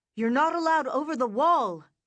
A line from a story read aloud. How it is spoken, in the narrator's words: was shouting